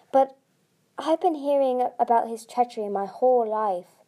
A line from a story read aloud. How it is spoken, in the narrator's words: he sighed